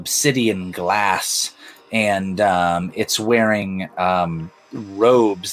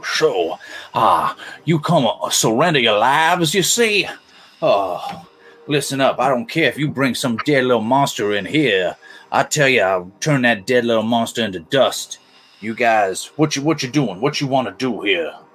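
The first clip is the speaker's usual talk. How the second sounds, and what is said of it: Lizard creature voice, bayou accent. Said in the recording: “I'm going to give him a bayou country accent rather than the lizard accent, but a lizard voice that I usually do.”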